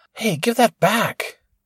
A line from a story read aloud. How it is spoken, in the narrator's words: Preston whisper yelled